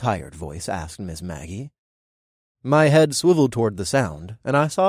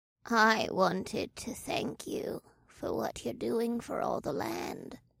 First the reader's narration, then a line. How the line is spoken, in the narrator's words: the possum woman croaked